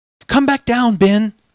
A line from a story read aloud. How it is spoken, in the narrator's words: the princess shouted as loud as she could over the noise of the waterfall